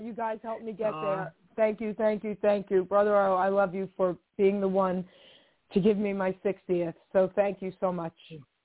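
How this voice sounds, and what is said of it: Choked-up, emotional voice. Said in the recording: “I'm a little choked up right now”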